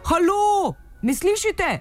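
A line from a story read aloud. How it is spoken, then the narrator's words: Shouted outward. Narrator (Slovenian): sem zavpila van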